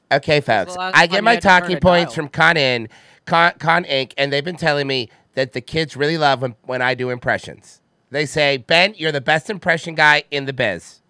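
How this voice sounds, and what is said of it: Poor imitation of another person's voice. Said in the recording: “That was a dog shit impression of Chris Matthews. ... That was the worst Chris Matthews impression I've ever heard in my life.”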